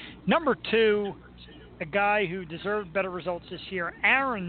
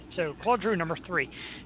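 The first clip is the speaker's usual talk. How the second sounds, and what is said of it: Bad put-on Canadian accent. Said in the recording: “I like to say Claude in my horrible Canadian accent.”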